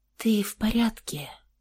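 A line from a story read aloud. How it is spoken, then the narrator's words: Quiet question. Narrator (Russian): тихо спросила Александра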